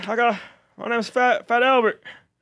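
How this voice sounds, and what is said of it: Fat Albert cartoon character voice. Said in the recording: “Is that a Fat Albert impression?”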